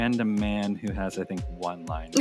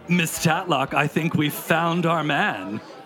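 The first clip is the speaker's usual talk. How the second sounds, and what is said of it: Put-on character voice. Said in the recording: “I should do a voice for Mr. Burns.”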